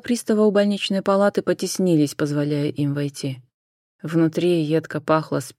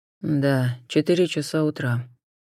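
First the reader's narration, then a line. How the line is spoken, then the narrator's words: Gloomy confirmation. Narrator (Russian): мрачно подтвердил Суарес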